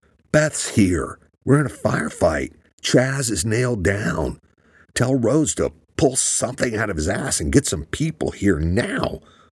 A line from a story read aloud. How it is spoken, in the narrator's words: Luke screamed in his head